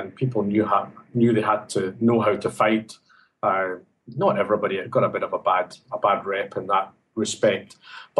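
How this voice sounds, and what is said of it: Scottish Glasgow accent. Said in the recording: “as you can tell from my accent, I'm not Sydney born and bred. I come from Glasgow area in Scotland”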